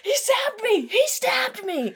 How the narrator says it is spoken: I just scream

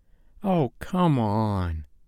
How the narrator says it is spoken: I whined

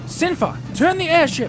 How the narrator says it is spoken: shouted Term, aggravated at its lack of maneuverability

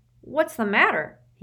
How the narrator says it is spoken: he cried

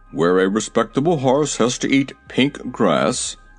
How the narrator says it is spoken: he grumbled

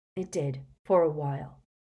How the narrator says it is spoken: muttered Harry

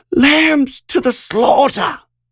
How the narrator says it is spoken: clear as crystal, Catherine screamed out

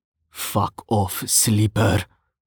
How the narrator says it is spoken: Anton hissed back, his voice barely audible

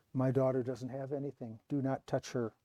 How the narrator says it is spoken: She muttered

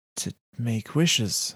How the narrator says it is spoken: Lavinia pants

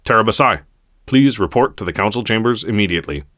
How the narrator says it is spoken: he barked at Terra

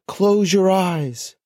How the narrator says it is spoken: yelled to the other unicorns

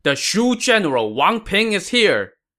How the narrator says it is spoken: a loud cry rang out, accompanied by the loud shout

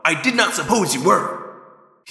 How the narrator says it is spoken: he snapped

